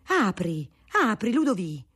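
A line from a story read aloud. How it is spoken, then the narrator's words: Exclaimed. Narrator (Italian): esclamò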